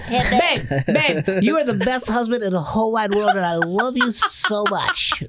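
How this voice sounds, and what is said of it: Imitates another person's voice. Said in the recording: “That's my Marty impression.”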